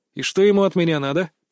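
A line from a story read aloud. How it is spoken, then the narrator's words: Reluctant grumble. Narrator (Russian): проворчал, вовсе не желая куда-либо идти, кроме как домой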